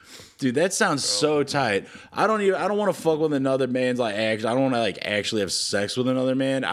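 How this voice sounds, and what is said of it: Usual voice. Nothing is said of it.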